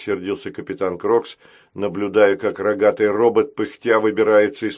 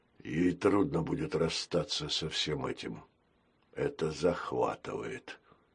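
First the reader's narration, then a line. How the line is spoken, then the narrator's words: Barely audible whisper. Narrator (Russian): еле слышно прошептал капитан Крокс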